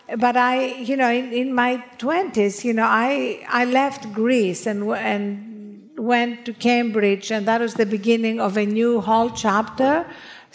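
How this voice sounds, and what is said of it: Greek accent. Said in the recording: “I'm Greek, as you can hear from this accent, which I've tried to change but failed.”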